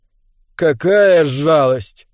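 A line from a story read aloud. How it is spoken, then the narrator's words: Drawn-out drawl. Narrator (Russian): протянула охотница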